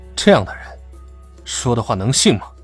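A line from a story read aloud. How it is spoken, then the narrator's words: Cold. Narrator (Chinese): 颜元昭冷冷道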